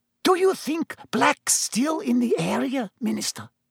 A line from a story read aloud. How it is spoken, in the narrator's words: whispered Madame Rosmerta